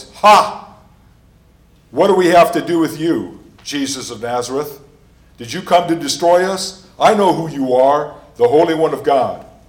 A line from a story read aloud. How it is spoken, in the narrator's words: cried out in a loud voice